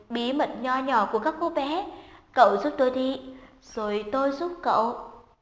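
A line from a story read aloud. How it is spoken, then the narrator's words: Smiling. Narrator (Vietnamese): Hà Lệ Chân mỉm cười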